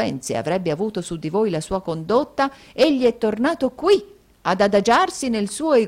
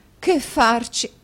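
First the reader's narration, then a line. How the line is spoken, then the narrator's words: Exclaimed. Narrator (Italian): esclamò la signora Nickleby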